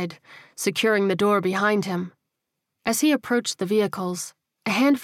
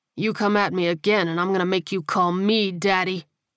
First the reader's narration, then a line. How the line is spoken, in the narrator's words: Leon growled